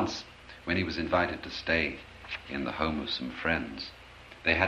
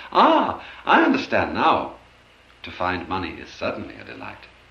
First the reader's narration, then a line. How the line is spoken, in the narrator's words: with a cry of joy he exclaimed